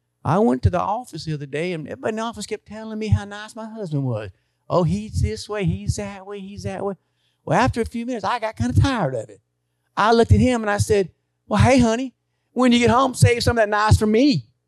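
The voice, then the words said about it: Fake Southern accent. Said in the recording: “I'll do a fake Southern accent. I'm not trying to mock her because she has a real Southern accent.”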